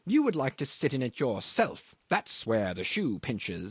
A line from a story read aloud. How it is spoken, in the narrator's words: he sneers